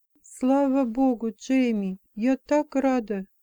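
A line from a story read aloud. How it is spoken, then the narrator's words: Whisper. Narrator (Russian): прошептала я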